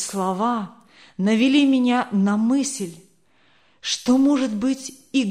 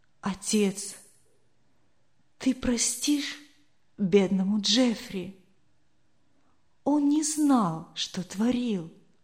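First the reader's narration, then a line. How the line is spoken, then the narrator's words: Whispered. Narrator (Russian): он шептал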